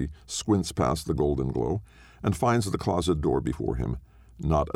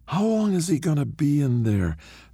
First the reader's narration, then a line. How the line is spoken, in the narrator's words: Tina says, her voice a smoke-thick rasp as she exhales in a thin gray cloud